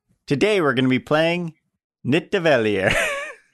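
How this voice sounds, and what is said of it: Italian-sounding pronunciation of a name. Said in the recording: “that sounded Italian... tried to do it like the guy in the video... Nothing like the guy in the video.”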